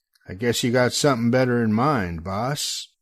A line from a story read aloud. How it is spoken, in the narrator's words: I growl back